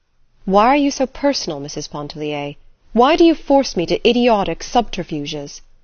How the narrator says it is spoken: exclaimed with sudden warmth

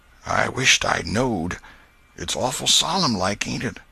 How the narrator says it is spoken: Huckleberry whispered

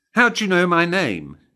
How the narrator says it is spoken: she snapped back

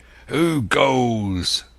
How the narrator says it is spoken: with a mighty oath the voice of Silver cried

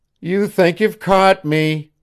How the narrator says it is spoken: whined Janet

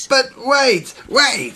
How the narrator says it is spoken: shouted Tsepo

